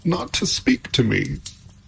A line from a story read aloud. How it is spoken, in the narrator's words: said Pandora, sobbing anew